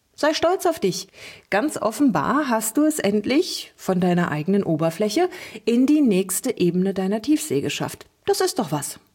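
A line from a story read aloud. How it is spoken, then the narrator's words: Cheerful chatter. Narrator (German): plauderte Lulu fröhlich weiter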